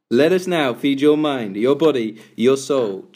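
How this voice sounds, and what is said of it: Radio announcer voice. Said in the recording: “That's the radio bit. ... do the voice.”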